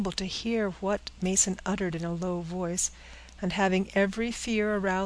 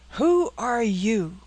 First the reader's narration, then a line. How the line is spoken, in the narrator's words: cried Mason